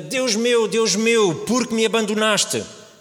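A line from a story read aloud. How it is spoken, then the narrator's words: Shouting. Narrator (Portuguese): grita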